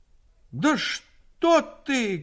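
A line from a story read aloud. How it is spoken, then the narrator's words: Shouting grandmother. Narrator (Russian): крикнула бабушка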